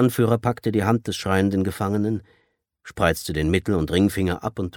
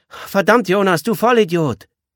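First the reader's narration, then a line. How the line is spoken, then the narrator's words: Girl calling from afar. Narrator (German): Das tätowierte Mädchen rief aus dem Hintergrund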